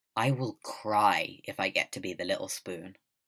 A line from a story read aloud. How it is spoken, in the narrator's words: Wei Ying says firmly